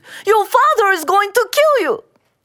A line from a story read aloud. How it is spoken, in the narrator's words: screamed